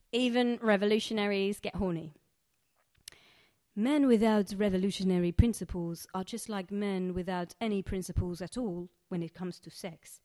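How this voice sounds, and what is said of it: Put-on Egyptian accent. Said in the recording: “has come over to London from Egypt ... this accent, which is somewhat dubious”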